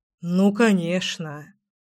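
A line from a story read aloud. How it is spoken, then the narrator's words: Sighing. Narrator (Russian): вздохнул я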